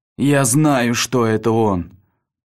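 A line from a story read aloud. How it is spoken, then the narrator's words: Hoarse rasp. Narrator (Russian): прохрипел Арктур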